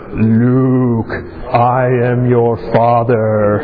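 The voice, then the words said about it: Darth Vader character voice. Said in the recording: “In your best voice, in your best Darth Vader voice.”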